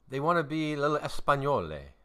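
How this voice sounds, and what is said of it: Poor put-on Spanish accent, sounds Italian. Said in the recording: “That was kind of Italian. What was that accent? ... That was not. ... wasn't even close.”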